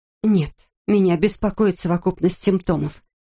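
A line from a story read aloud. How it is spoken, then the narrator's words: Plain. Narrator (Russian): сказала Эмма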